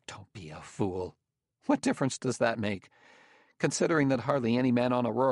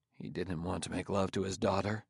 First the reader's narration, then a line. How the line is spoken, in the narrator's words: Bailey stirred uneasily and said in a mumble